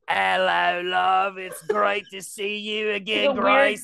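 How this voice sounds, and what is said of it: Put-on Cockney accent. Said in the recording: “Weird Cockney accent.”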